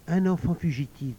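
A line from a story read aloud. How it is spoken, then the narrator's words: Plain. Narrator (French): dit Gaspard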